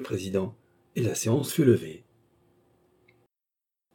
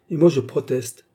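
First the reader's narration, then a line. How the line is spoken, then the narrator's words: Plain. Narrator (French): dit Peter Stulpnagel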